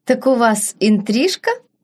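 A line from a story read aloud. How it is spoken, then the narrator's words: Laughing. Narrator (Russian): Принцесса рассмеялась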